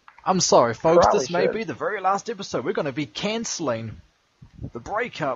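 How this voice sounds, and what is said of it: Usual voice. Nothing is said of it.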